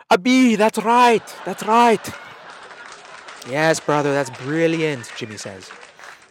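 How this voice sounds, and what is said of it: Weak put-on Irish accent. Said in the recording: “That's the best Irish accent I can do. I really can't do any better ... I haven't practiced.”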